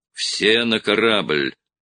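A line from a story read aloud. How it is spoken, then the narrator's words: Growl. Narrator (Russian): прорычал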